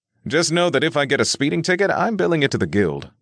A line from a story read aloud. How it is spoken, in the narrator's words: Will said with a chuckle